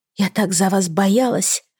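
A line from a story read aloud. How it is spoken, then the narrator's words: Whisper. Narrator (Russian): прошептала я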